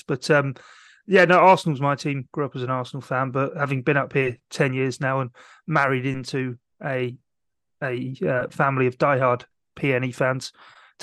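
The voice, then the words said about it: Non-local accent, possibly softening. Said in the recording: “as you can tell from my accent, I'm not from round these parts. Although some say my accent's softening, I don't think it is.”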